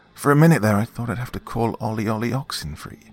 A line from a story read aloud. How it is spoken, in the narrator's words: he said with a pleased sigh